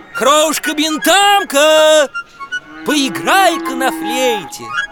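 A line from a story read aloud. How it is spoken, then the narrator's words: Shouting. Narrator (Russian): кричал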